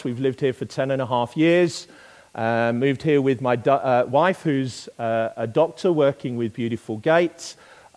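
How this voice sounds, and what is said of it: Non-local accent. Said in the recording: “you can tell from my accent, I am not originally from these parts”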